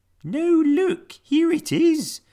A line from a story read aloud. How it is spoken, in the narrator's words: cried Peg Polkadot